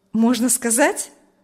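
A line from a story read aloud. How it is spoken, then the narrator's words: Cheerful smiling question. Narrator (Russian): спросил Урзин, уже весело улыбаясь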